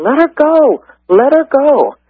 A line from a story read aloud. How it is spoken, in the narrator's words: other students, they were all yelling